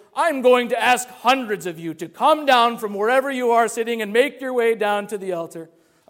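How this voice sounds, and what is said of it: Poor imitation of a preacher's voice. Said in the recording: “terrible Billy Graham impression.”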